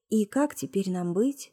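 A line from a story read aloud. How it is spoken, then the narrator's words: Soft. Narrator (Russian): спросила Маруся мягко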